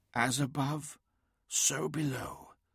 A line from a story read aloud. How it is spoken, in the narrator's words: whispered Adamon